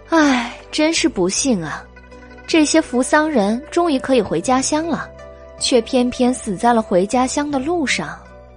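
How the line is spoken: Sighing. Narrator (Chinese): 白姬叹道

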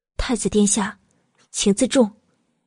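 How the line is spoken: Cold warning. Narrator (Chinese): 慕容九九面色大变，只能警告似的冷冷的道

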